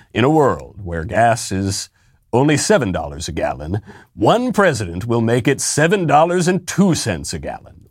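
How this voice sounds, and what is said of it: Deep movie trailer announcer voice. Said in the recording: “is that the guy who does the movie trailers?”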